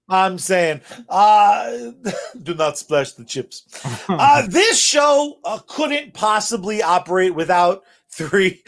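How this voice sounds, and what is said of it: Imitates another person's voice. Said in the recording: “as bad as Charlie's version of Malkovich's accent”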